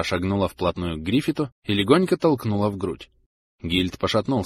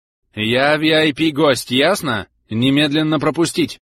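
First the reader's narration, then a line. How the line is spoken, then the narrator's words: Barked, most commanding tone. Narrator (Russian): Рявкнула Зара самым начальственным тоном, на который была способна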